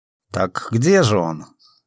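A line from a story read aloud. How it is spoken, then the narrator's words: Plain question. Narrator (Russian): спросил Филька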